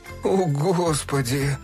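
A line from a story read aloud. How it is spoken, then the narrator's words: Groan. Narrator (Russian): простонал Фил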